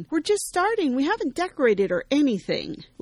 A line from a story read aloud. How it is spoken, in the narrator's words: Sammy shouts from the other side of the kitchen